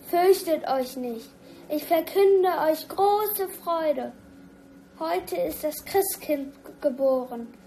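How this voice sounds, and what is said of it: Very loud proclaiming voice. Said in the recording (German): “dass der Sternenengel ganz laut sein ... Es war bis in die hinterste Ecke zu hören”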